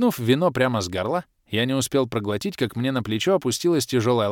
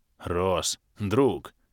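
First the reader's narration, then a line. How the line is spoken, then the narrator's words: Heartfelt deep bass. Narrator (Russian): проникновенно пробасил Барс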